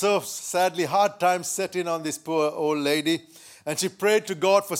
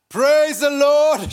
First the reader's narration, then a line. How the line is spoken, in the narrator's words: she shouted on the porch, she said